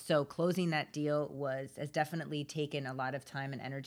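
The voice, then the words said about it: Slightly sick-sounding voice. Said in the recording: “you can probably hear it in my voice. I'm a little bit sick”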